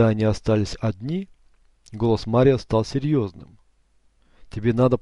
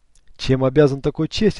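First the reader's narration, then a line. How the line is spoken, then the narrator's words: Plain question. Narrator (Russian): спросил он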